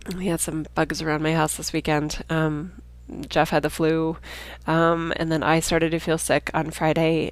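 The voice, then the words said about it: Nasal, congested voice. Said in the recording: “You can probably hear in my voice I have a cold. ... sorry if my voice sounds so nasal. I'm trying to stay deep in my chest”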